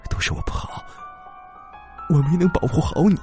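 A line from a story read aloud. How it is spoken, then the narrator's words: Tearful murmur. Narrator (Chinese): 王清林眼泪夺眶而出，喃喃自语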